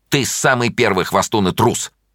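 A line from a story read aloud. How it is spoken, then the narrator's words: Angry. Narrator (Russian): сердито сказала Таня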